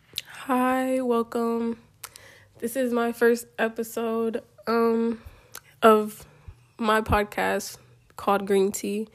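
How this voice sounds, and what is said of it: Congested, weird-sounding voice from cold. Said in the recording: “my voice sounds a little weird... I'm getting over a cold and my allergies are acting up. So my voice doesn't always sound like this”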